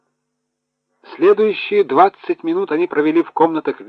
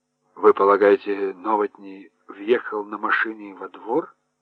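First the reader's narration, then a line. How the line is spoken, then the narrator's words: Muttered. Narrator (Russian): пробормотал Хорншу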